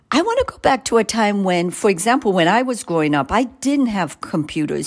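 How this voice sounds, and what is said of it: Jamaican accent. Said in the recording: “You can hear an accent. I grew up in Jamaica.”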